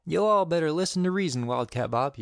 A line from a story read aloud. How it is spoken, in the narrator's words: yelled the sheriff